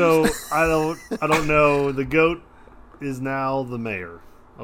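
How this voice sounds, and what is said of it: Usual voice. Nothing is said of it.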